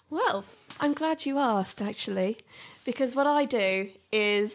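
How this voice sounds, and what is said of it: Sultry phone sex line voice. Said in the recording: “sex line worker, apparently ... putting on that kind of voice”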